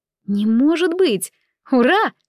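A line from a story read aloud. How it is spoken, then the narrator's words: Overwhelmed exclamation. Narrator (Russian): воскликнула она, не в силах сдерживать эмоции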